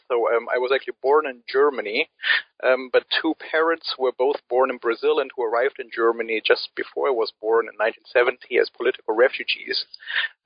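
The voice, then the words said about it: Non-native English accent. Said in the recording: “people might already have guessed by my accent that I am not an Anglophone by birth”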